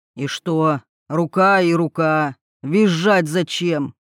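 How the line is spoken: Sullen grumbling. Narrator (Russian): С хмурым выражением лица проворчал он

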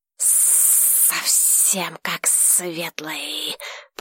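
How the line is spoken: Dragon's hiss. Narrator (Russian): прошипел дракон

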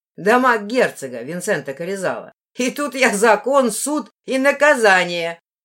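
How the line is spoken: Low booming laugh. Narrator (Russian): захохотала Ивна низким, зычным голосом

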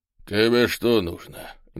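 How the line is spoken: Unfriendly grumble. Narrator (Russian): недружелюбно буркнул полный мужчина

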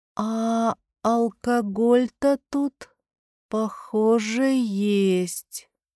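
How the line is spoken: Drawn-out drawl. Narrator (Russian): протянула Бьянка

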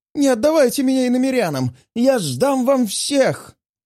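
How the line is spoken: Whimpering. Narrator (Russian): Скулит

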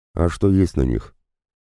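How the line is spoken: Calmer question. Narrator (Russian): уже более спокойным тоном спросил Аракчеев

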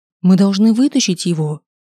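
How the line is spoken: Exclamation. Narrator (Russian): воскликнул я

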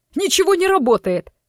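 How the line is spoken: Panicked yell. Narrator (Russian): в панике заорал мужик

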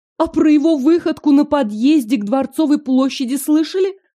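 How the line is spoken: Seamstress exclaiming again. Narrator (Russian): вновь воскликнула портниха

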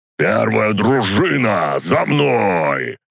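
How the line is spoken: Roared. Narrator (Russian): проревел он

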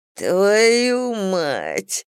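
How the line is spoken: Muffled whimper. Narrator (Russian): заскулил Клей, закрывая половину лица рукой

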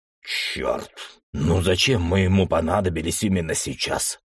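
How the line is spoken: Grumbling. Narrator (Russian): проворчал Джек

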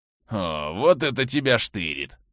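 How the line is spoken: Surprised voice. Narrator (Russian): раздался удивленный голос

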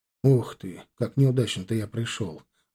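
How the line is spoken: Sighing, upset. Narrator (Russian): вздохнув, проговорил огорченно Гончаров

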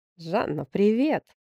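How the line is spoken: Joyful. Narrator (Russian): радостно произнес он

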